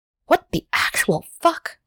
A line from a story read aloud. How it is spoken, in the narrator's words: Hyunjin whispers